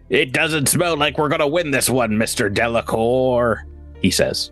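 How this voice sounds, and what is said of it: Put-on character voice. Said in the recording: “That's Jabert. That's Jabert's voice. ... you doing the Jabert voice”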